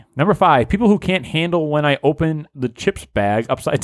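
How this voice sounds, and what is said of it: Usual voice. Nothing is said of it.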